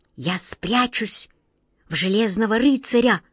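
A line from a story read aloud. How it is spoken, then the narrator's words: Whispered. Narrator (Russian): прошептала она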